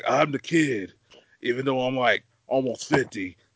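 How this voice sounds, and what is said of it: Imitates another person's voice. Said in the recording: “the best Callen impression I've ever heard”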